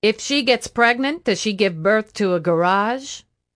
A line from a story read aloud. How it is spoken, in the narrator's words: Atomiko chuckled